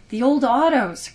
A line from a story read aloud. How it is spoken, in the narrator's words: cried Simon